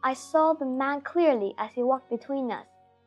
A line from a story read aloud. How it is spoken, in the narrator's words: said the first